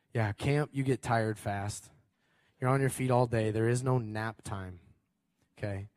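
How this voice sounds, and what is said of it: Worn-out, partly lost voice. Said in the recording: “That's why my voice is a little like this. I lost it at camp”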